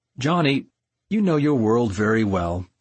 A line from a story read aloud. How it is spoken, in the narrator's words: he said